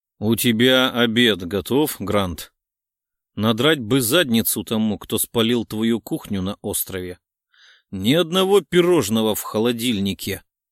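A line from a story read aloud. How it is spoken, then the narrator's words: Hungry bear grumbling. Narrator (Russian): Судя по ворчанию, медведь голодный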